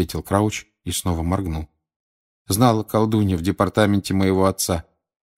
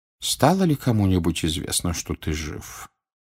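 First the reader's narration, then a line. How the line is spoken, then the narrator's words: Quiet question. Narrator (Russian): тихо спросил Дамблдор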